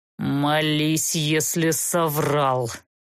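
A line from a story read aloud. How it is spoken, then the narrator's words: Angry words through teeth. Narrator (Russian): Зло процедил арбалетчик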